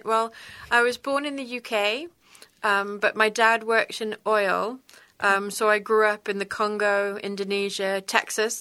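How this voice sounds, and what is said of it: British English accent. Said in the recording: “everybody can clearly hear your accent ... which I think why the accent sticks”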